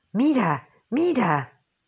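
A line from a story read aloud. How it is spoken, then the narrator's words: Exclaiming. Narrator (Spanish): exclamó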